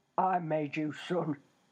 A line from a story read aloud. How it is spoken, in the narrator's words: he growled